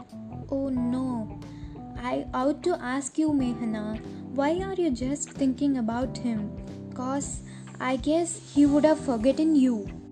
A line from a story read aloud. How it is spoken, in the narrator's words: she says in a low tone